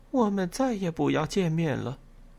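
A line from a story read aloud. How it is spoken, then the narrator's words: Muttering. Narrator (Chinese): 我嘟囔了一句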